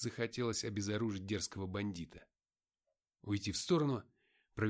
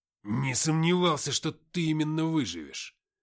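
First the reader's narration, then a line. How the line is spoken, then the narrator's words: Growl. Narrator (Russian): прорычал он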